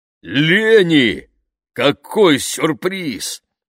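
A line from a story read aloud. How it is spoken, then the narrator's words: Booming very loudly. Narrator (Russian): протрубила Мардж так громко, что, случись поблизости птицы, наверняка сорвались бы с деревьев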